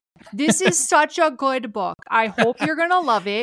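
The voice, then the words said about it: Exaggerated Minnesota accent. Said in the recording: “am I reading in my Minnesota accent?”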